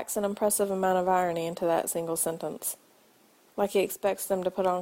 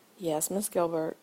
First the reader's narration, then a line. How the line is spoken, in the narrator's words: he murmurs against her skin